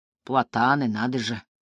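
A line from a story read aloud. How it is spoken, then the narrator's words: Thoughtful, curious tone. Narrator (Russian): произносит Мартин вдумчивым тоном юного натуралиста в ботаническом саду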